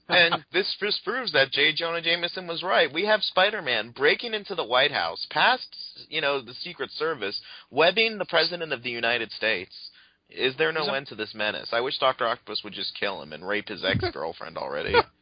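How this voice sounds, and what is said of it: Mocking cynical internet commenter voice. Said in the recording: “That was a good impression of every cynic on the internet. That was very good”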